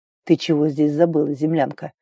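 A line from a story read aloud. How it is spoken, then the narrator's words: Breathless wheeze. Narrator (Russian): Просипел, переводя спертое дыхание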